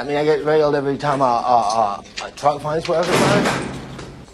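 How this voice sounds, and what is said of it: Mumbling character accent. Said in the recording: “give this character a mumbling accent.”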